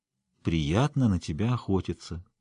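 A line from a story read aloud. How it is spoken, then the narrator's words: Quiet. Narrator (Russian): тихо проговорил Риенс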